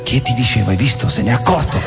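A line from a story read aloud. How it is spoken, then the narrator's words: Girl's subdued murmur. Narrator (Italian): Una ragazza sommessa mormorò col viso smorto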